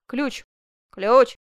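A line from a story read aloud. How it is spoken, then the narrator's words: Shouting. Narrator (Russian): крикнул Челлини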